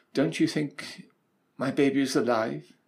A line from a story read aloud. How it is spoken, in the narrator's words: she said